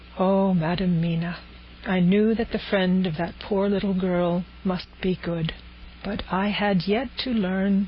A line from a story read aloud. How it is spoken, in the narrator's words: said tenderly